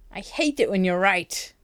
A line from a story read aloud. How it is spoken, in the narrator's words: He snarled